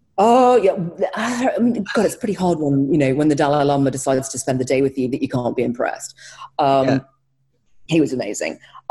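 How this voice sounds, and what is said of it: Speaks with a noticeable accent. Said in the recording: “don't let the accent fool you”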